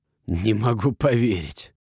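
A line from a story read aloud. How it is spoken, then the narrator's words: Hiss. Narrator (Russian): прошипел он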